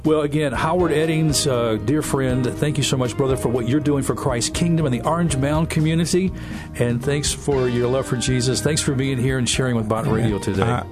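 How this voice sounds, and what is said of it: Polished radio announcer voice. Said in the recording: “radio voice”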